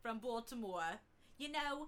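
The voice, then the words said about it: Put-on Baltimore accent, sounds Long Island. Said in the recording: “That's my Baltimore accent. It's not so great. It kind of sounds like Long Island.”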